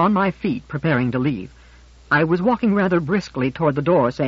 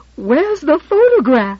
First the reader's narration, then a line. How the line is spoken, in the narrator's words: in half a shriek